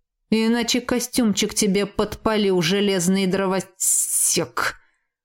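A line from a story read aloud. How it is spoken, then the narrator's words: Hiss in another's voice. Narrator (Russian): Прошипел белокурый эльф голосом Кая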